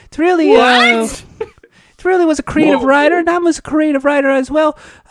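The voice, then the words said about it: Imitates another person's voice. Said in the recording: “That impression is so good. I thought it was really him.”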